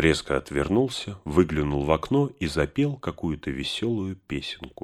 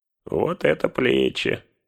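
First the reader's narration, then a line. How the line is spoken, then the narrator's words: Grumbled. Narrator (Russian): проворчал он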